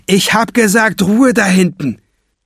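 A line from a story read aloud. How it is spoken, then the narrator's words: Shouting robber. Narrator (German): schreit der Bankräuber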